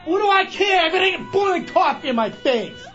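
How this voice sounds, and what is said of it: Yelling. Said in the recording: “What did I tell you about yelling in the studio? ... Stop yelling.”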